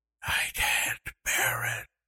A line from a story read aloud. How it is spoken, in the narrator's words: she whispered